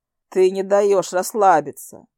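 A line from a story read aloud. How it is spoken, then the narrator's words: Snorting. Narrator (Russian): хмыкнул Хантер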